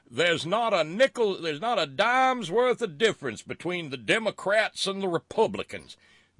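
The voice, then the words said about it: Put-on Southern American accent. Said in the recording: “I have to do my Southern accent for it because that's the way I hear it in my head.”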